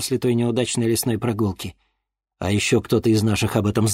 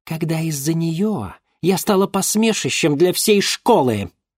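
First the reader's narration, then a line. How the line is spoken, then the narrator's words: Angry shout. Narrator (Russian): злобно выкрикнула Гульнара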